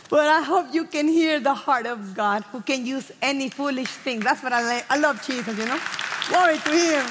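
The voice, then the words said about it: Heavy accent, fast talking. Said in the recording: “I talk a lot and I'm talk fast. And with a heavy accent,”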